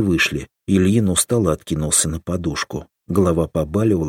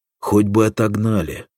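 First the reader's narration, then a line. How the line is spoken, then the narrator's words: Sighing. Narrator (Russian): вздохнул Соломатин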